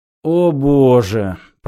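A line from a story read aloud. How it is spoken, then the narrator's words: Groaning. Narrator (Russian): простонал Зафот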